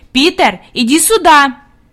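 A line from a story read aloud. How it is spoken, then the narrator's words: Commanding shout. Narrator (Russian): Хади крикнула повелительным тоном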